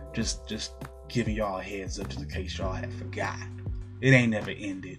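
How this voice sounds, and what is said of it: Southern US country accent. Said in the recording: “I know I got a country accent right now. You can make fun of me.”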